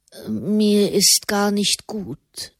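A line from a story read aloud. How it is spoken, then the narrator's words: Murmur. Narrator (German): murmelte Fra Raymond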